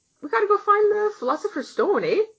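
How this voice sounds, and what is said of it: Exaggerated Canadian accent. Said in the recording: “they would come to me with their Canadian ass.”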